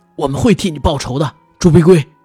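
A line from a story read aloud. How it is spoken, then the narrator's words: Angry. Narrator (Chinese): 赤川愤怒地说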